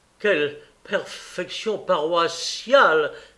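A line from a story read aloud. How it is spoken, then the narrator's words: Exclaiming. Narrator (French): s'écria M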